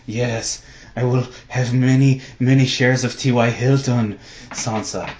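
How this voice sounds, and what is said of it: Creepy Littlefinger impression. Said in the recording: “like Littlefinger slinking in the corner having a creepy conversation with Sansa ... my Game of Thrones impression”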